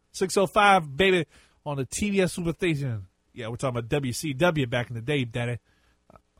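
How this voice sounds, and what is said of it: Imitates another person's voice. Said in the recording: “doing the Dusty Rhodes voice”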